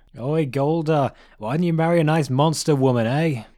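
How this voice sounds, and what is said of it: Character voice, New York accent. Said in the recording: “Pig with New York accent.”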